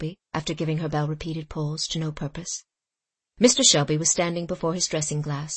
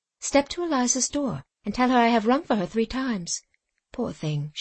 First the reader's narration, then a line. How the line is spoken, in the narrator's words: she added to herself, with a sigh